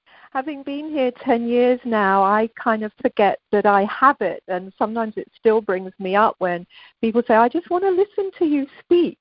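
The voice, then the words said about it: Warm British accent. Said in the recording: “your British accent ... It's always warm and comforting”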